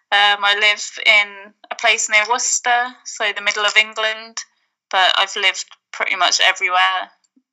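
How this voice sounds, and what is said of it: Mixed British accent, monotone. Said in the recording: “I've got quite a monotone accent... I've picked bits up from all around the UK”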